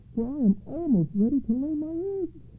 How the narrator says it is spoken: cried the female duck

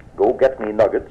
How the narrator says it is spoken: murmur

